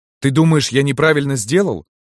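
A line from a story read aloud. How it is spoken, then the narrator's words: Angry question. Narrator (Russian): сердито спросил Кирилл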